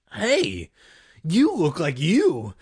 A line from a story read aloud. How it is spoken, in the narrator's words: Greg exclaimed